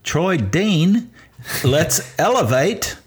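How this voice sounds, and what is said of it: Put-on Australian accent. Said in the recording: “That's my best Australian accent.”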